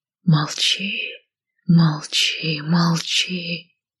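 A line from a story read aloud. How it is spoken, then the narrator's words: Shadows whispering. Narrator (Russian): шептали тени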